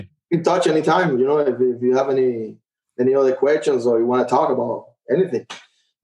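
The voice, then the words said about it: Non-native English accent. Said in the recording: “I hope everybody can understand my, you know, my accent”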